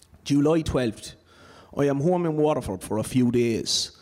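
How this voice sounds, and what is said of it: Irish Waterford accent. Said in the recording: “an authentic Waterford accent”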